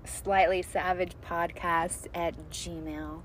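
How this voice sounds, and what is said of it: Sultry, sexy voice. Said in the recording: “There's that sexiness. ... There's that sexy voice.”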